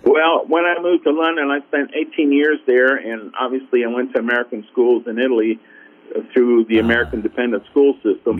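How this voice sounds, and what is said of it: Mississippi accent. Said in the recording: “I'm hearing nothing but just a Mississippi accent, sort of”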